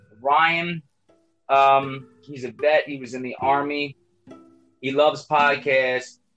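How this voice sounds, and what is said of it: Loud, near-shouting speech. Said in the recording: “if I'm a little loud, so I'm screaming out”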